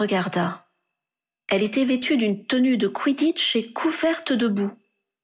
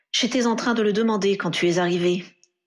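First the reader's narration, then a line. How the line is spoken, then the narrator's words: Growled. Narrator (French): grogna Harry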